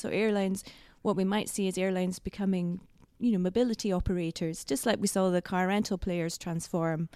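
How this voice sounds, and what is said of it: Scottish accent. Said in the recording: “I live in Scotland ... I didn't notice the accent”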